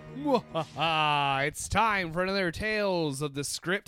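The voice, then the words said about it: Spooky monster host voice. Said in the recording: “my monster voice”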